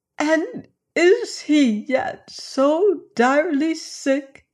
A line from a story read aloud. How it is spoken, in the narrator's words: she sobbed